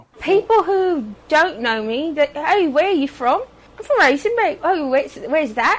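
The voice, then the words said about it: British-sounding accent, like the Queen. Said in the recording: “she talks like that Prince Charles dude... they sound like the Queen... Don't let the Queen's tongue fool you... foreign accent syndrome”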